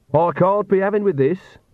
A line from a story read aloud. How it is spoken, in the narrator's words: Agnes shouted